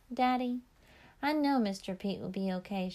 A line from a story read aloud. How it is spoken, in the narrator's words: she said